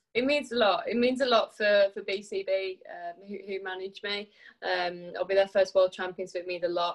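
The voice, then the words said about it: Noticeable regional English accent. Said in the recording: “I think people can hear your accent.”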